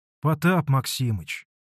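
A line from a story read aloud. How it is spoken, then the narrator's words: Dejected voice. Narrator (Russian): Упалым голосом начал было Алексей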